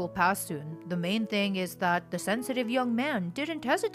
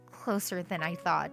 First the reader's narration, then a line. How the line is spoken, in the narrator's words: I muttered to myself